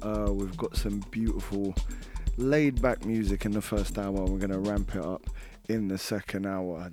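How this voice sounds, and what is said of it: Weaker voice than normal. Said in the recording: “my voice is weaker than normal”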